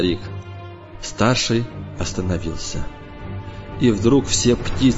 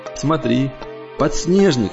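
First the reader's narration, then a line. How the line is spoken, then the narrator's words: Older child's joyful shout. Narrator (Russian): крикнул старший радостно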